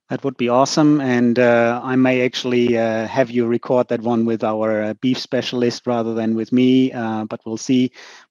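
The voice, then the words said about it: Austrian-German accent like Arnold Schwarzenegger. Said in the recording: “my Arnold Schwarzenegger kind of dialect”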